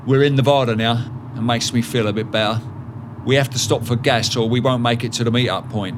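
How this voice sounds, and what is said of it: Cockney London accent. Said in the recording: “calling me a cockney git and taking the piss out of my accent”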